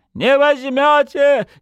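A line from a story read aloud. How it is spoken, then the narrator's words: Boy's hysterical shout. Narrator (Russian): истерично крикнул мальчишка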